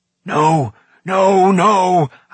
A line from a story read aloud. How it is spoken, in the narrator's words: howled Gurgi at the top of his voice